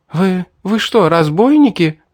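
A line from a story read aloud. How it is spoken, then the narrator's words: Anxious young woman. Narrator (Russian): взволнованно спросила девушка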